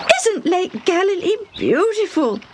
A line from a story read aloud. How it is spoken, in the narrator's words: Debbie exclaimed